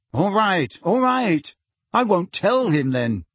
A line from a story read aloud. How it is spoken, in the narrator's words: said Harry irritably